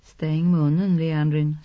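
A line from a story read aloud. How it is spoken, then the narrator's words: Calm female voice. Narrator (Swedish): sa kvinnan med lugn röst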